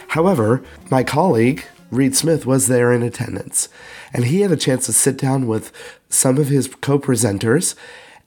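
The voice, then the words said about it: Sick-sounding voice. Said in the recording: “You probably could hear from my voice ... I actually came down with an illness”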